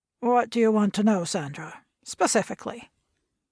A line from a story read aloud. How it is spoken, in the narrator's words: A sense of uneasiness gripped her, and her tone was curt because of it